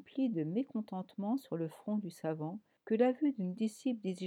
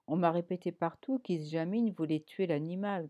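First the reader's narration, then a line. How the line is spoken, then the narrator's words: Growled. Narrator (French): grogna Miskovski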